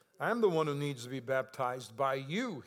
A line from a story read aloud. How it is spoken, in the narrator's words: said